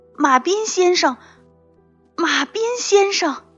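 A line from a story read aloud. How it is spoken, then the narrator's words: Shouting. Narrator (Chinese): 他大喊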